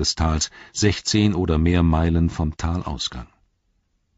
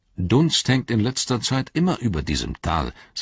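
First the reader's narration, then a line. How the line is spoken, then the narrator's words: Plain. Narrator (German): sagte Eomer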